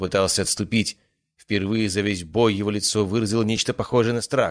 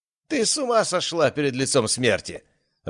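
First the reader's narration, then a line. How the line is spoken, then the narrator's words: Nervous laughter. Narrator (Russian): рассмеялся Кеншин, однако его смех был нервным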